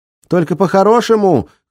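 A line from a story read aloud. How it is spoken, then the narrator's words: Shouted after someone. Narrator (Russian): крикнула она вслед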